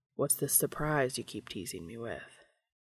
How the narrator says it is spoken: Dean said, pausing to murmur the question against Cass's clavicle

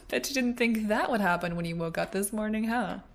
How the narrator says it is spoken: She laughed

